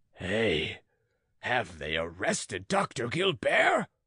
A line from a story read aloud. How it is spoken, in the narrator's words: roared the farmer